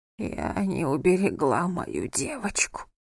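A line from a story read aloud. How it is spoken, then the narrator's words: Barely audible grandmother's whisper. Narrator (Russian): прошептала бабушка Гюли чуть слышно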